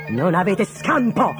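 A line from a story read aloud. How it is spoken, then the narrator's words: Shouted. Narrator (Italian): gridò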